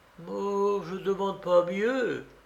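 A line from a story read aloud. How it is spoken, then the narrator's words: Bishop stammers anxiously. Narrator (French): balbutia l'évêque qui ne put dissimuler une grande inquiétude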